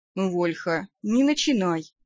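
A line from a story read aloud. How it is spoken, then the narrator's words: Tired sigh. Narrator (Russian): устало вздохнул вампир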